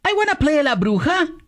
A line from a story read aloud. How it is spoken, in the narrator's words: exclaimed Pancha la Pingüis